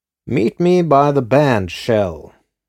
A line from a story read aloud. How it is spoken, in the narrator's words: he had purred